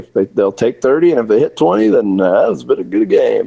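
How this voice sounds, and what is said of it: Impression of coach Cal. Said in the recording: “which is exactly what Cal will say ... That's a pretty good impression right there.”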